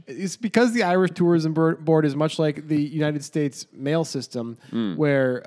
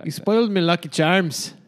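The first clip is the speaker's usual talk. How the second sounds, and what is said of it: Put-on Irish accent, passable. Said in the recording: “Give us just a one sentence of an Irish accent. Say you spoiled my Lucky Charms, but with an Irish accent. ... Not terrible. Not terrible.”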